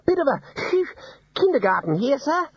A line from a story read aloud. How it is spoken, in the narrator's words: Ponder wheezed